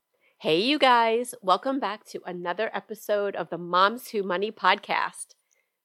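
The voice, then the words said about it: Congested voice from a cold. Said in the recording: “excuse my voice... here I am with a head cold. So I'm sorry if I sound terrible.”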